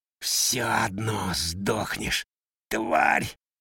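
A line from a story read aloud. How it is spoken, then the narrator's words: Snarling hoarse wheeze. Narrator (Russian): оскалившись, прохрипел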